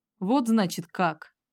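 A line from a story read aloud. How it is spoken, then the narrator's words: Father growling. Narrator (Russian): рыкнул отец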